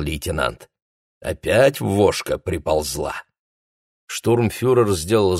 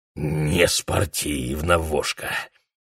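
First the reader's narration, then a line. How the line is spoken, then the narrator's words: Hoarse rasp, broken teeth. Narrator (Russian): прохрипел он, чувствуя, как острые обломки зубов колют язык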